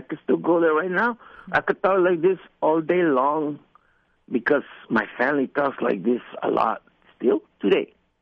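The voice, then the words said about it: Strong Tijuana Mexican accent. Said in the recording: “I used to have a strong Tijuana accent.”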